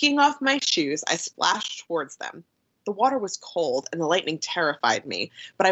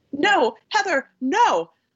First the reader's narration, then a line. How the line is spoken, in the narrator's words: I shouted